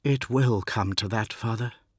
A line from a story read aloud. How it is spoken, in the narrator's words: he said quietly